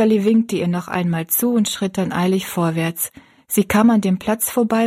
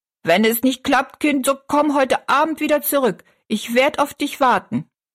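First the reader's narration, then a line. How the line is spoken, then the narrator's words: Calling after someone. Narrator (German): rief sie noch hinterher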